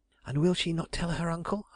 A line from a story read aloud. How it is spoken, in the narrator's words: I gasped